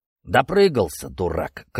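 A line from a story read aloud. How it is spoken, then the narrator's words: Curt, angry. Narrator (Russian): кратко и зло резюмировал Покровский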